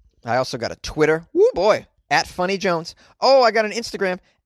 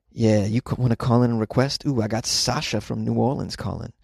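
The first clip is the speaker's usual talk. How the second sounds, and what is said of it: Smooth late-night R&B DJ voice. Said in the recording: “It's the late night R&B DJ voice. ... Late night R&B DJ.”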